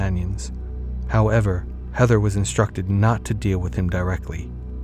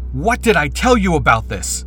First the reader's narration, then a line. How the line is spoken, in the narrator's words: Eric snapped